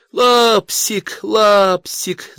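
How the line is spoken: Squealing. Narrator (Russian): завизжала Машка

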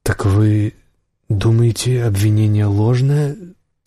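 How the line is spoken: Drawling. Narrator (Russian): протянул Ланс

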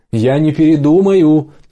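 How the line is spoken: Shouting after someone. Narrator (Russian): крикнула Джанна ей вслед

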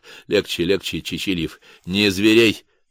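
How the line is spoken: Mumble, warrior. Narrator (Russian): пробормотал кто-то из дружинников

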